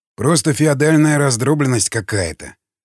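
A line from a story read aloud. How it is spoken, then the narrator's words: Disappointed sigh. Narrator (Russian): разочарованно вздохнул людоед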